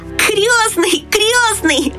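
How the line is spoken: Shouting. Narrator (Russian): закричал он

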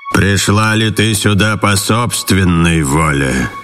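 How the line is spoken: Growling monster asking. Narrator (Russian): рычащее чудовище и спросило ее

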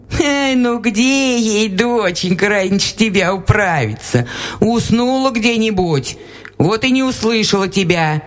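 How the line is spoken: Laughing old woman. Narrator (Russian): засмеялась баба

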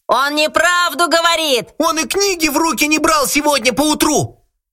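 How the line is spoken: Upset children shouting together. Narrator (Russian): все дети, огорченные его надменностью, закричали в один голос

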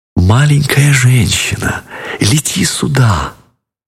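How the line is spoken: Very tender whisper. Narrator (Russian): нежно-нежно шепнула

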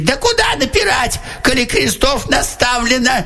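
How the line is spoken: Shouted. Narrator (Russian): Солдат закричал

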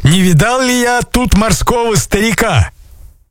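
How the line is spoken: Shouted. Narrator (Russian): закричали

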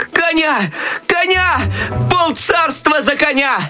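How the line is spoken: Desperate shout. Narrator (Russian): В отчаянии закричал Щелкунчик

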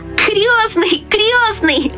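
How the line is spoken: Shouting. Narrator (Russian): закричал он

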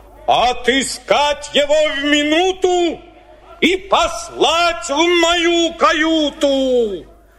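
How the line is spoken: Whale's angry shout. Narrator (Russian): Кит во гневе закричал

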